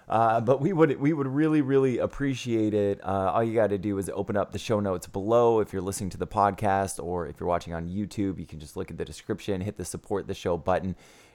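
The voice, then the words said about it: Hoarse, strained voice. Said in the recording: “I'm losing my voice. I've been screaming a lot this week.”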